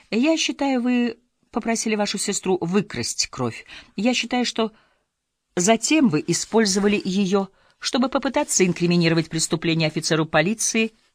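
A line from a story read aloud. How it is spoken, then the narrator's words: Clipped, measured. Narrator (Russian): отчеканила она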